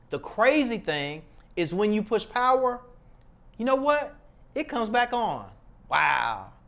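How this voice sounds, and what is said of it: Sarcastic delivery. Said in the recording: “I was sarcastic”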